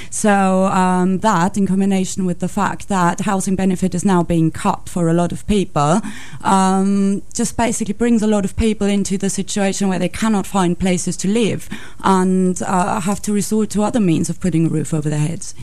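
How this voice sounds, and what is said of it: Non-British accent. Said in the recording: “you're from your accent, you're not a British person”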